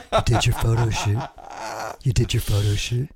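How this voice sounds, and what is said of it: FM radio DJ voice. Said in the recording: “I have to do my FM radio voice”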